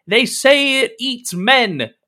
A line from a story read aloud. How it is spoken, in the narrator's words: someone shout